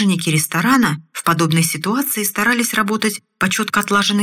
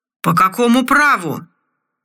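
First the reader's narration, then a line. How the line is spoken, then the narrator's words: Slurred drunken yelling. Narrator (Russian): заорал заплетающимся языком командор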